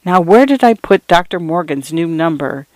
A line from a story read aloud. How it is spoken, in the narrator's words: muttering to herself